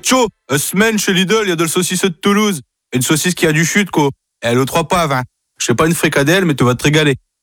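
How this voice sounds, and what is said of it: Put-on northern French accent. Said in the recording (French): “accent du Nord”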